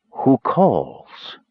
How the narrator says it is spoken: voice rang in his head, hissing the words as a snake spits venom

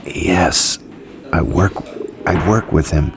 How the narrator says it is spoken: Clark muttered

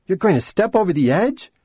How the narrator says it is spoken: Her voice rose in alarm

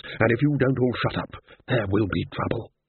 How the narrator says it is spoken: said Ridcully in a low and level voice

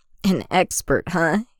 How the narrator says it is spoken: Anakin chuckles

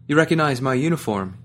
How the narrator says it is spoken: he asked me

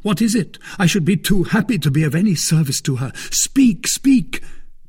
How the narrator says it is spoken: cried Buckingham

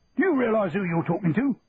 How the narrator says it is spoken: bellowed the sergeant major

